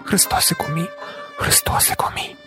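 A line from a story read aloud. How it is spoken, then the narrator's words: Lustful whisper. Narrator (Ukrainian): любострасно шепотіла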